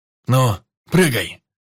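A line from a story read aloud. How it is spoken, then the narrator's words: Shouting from above. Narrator (Russian): кричал майор сверху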